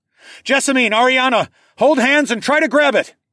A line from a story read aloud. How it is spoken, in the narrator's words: I shouted